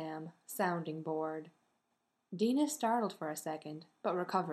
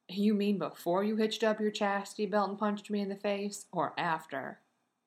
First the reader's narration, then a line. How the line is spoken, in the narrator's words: Sam is grumbling